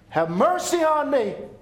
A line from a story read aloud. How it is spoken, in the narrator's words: The same man that cried out in hell